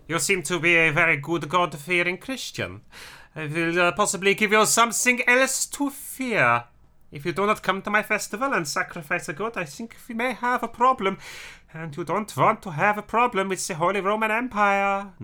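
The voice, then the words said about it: Polite, threatening put-on German accent. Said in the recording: “being mean to people always sounds better in a German accent ... if you're going to do it in a German accent, you have to be overly polite whilst also being threatening.”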